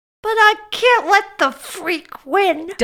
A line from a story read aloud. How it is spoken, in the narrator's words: Dudley whined